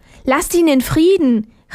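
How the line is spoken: Calling out. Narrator (German): rief Armerle

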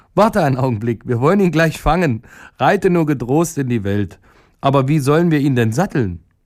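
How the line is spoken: Woman laughing loudly. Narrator (German): die Frau lachte laut und sagte

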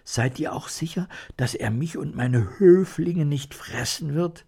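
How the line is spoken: Fearful question. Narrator (German): Die Mäusekönigin fragte ängstlich

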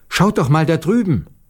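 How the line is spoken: Sudden calling out. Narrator (German): Plötzlich rief Maruscha

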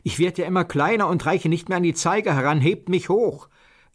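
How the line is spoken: Called out. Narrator (German): rief Petja

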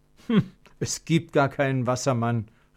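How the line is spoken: Called out. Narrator (German): rief Konrad

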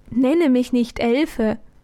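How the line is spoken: Sweet laughing voice. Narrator (German): lachte sie mit lieblicher Stimme

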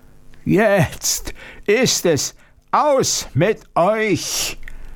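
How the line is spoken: Monster roaring. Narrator (German): brüllte das Ungeheuer

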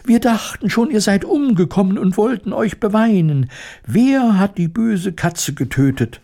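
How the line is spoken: Squeaky overlapping voices. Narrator (German): piepsten durcheinander

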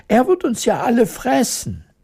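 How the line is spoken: Horrified queen screaming. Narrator (German): schrie die Königin entsetzt

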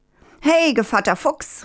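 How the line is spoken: Called out. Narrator (German): rief der Hahn

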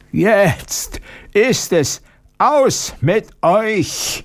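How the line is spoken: Monster roaring. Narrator (German): brüllte das Ungeheuer

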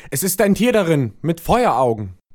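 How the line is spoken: Horrified repeated shouting. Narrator (German): entsetzt ... der, der die Flasche geöffnet hatte, rief in einem fort

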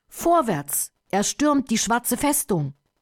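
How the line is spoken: Loud battle cry. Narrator (German): Firuz, der tapfere Anführer des Menschenheeres, rief laut

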